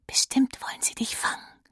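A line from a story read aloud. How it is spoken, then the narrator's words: Whispered. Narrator (German): flüstert Miller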